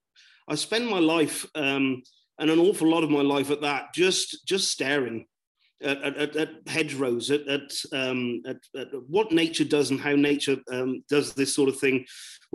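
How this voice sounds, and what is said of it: Broad southwest English accent. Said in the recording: “I am from the southwest of the UK and rather broad accent”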